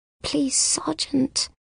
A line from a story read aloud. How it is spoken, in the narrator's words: she mumbles